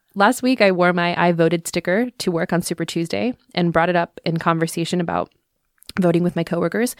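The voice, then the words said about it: Congested voice from a cold. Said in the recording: “excuse my voice today, you guys. I have a little cold.”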